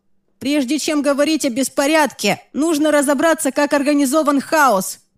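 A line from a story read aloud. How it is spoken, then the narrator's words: Shouted after someone. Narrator (Russian): прокричал Джимми вслед Праймусу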